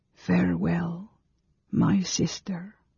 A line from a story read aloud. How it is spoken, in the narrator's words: Carol murmured